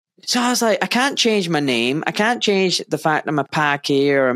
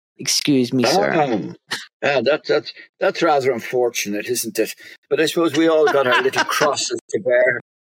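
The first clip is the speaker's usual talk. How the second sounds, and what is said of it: Posh Kelvinside Glasgow accent. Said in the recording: “I'll speak like them. So this is what you call a Kelvin side accent.”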